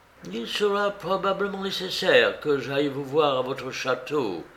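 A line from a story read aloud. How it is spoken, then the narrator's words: Plain. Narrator (French): dit Holmes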